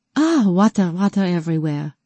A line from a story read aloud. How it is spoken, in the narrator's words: Julie panted